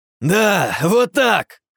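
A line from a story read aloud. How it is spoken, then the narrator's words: Joyful shout. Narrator (Russian): радостно выкрикнул я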